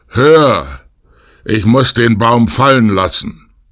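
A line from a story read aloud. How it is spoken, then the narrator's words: Exhausted giant calling out. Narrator (German): Der Riese, nachdem er ein Stück Wegs die schwere Last fortgeschleppt hatte, konnte nicht weiter und rief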